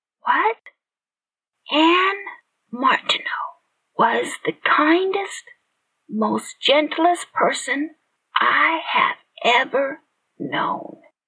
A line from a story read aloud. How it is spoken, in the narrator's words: Miss Smith said softly